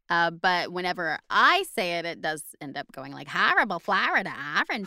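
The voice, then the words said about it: Odd put-on American regional accent. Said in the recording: “I don't even know what that accent is anymore. It's somewhere between like New Hampshire and hell.”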